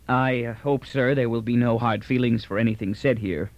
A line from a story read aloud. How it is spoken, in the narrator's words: Taliaferro finally brought himself to say stiffly to Mandel